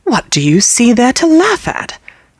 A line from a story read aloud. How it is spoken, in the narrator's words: I asked as angrily as if she had been a servant of my own